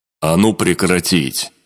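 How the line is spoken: Growl. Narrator (Russian): рыкнул шаман вместе с Серым

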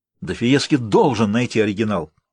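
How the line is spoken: Exclaimed, half to himself. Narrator (Russian): воскликнул кардинал, обращаясь больше к себе, нежели к архивариусу

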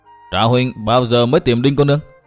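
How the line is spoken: Witty laughing question. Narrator (Vietnamese): Với giọng cười hóm hình, Dịch Thiên Hành hỏi tra Tử Thanh

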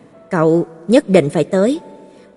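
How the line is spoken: Cold low voice. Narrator (Vietnamese): Ánh mắt bà lạnh lùng, giọng nói trầm thấp

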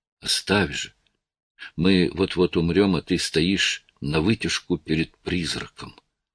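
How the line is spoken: Muffled whisper. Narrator (Russian): глухим шепотом добавила

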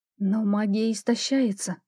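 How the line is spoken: Whispered. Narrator (Russian): прошептала

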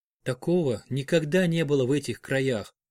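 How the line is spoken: Whisper. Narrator (Russian): прошептал Финиас

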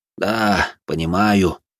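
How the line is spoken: Sighing priest. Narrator (Russian): вздохнул священник

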